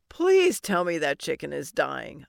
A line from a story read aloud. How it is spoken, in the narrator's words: I groaned